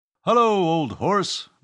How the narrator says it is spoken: bellowed Euclid

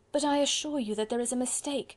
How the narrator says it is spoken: pleaded Marguerite earnestly

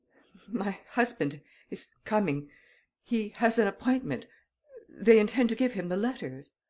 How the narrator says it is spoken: She was faint and nervous, and in a stammering voice she ejaculated

